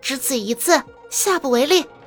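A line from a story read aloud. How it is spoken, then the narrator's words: Laughing. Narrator (Chinese): 钱莹莹笑道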